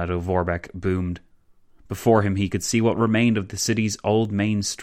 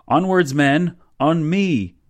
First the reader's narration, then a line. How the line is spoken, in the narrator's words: he yelled